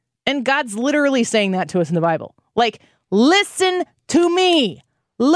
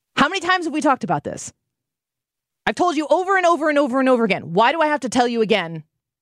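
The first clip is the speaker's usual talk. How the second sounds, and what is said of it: Scolding mom voice. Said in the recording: “that's my mom voice.”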